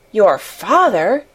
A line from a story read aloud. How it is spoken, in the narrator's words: gasped Mary